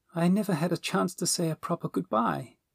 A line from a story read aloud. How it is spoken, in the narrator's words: said sadly